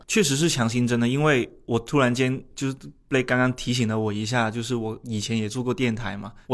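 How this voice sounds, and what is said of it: Shunde Cantonese-accented Mandarin. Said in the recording (Chinese): “被一些听众朋友吐槽的口音问题 ... 他的口音真的听不下去 ... 带着南潘顺 ... 你甚至听出来我是顺德口音的普通”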